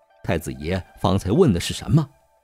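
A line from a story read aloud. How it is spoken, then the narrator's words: Repeated question. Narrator (Chinese): 朱义军又把问话重复了一遍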